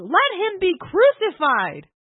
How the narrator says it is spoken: cried out the more, saying

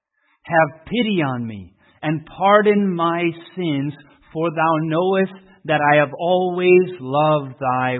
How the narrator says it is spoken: he cried

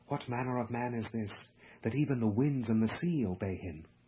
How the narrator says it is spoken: The people whispered among themselves

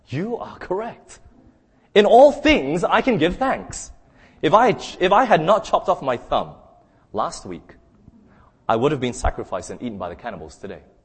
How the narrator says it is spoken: Being free, he ran back to his servant and exclaimed

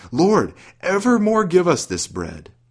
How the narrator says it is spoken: some of his hearers exclaimed

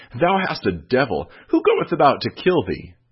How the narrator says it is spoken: they exclaimed

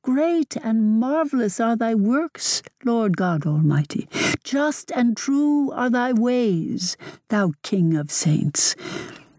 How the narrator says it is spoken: all with one voice exclaim

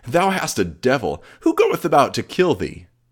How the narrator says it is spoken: they exclaimed

